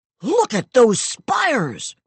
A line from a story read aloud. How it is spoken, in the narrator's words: the alien to scream